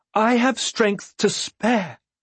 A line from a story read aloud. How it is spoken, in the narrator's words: she pleaded